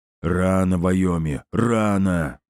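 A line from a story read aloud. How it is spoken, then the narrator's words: Booming. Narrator (Russian): прогудел генерал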